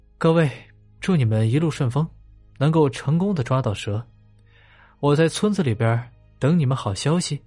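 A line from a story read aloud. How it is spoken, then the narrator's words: Smiling. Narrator (Chinese): 白小花笑着对几人说道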